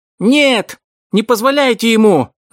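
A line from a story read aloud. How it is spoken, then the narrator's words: Shouting. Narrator (Russian): закричал Вилли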